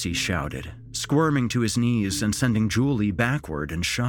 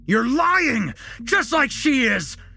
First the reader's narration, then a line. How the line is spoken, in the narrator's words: Jesse screamed, unhinged